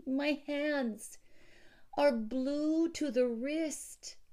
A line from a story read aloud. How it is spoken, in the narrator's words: pleaded Villon